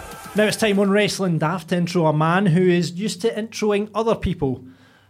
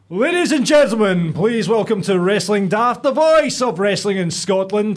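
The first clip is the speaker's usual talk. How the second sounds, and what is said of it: Booming ring announcer voice. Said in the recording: “I'll put on my best ring announcer voice”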